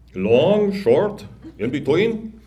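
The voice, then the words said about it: Slurred foreign accent. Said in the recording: “the barber asks with a slurred foreign accent.”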